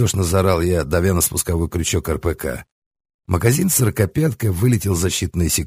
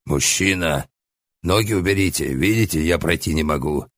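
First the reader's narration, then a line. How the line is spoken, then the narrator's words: Monster's breathy exhale. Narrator (Russian): Выдохнул мне в лицо мохнатый монстр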